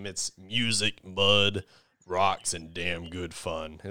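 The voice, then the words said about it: Imitates another person's voice. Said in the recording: “very good Sam Elliott impression”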